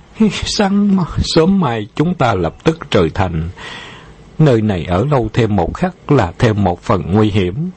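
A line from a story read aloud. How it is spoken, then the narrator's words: Sighing. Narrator (Vietnamese): Dân Ngọc Chân thở dài nói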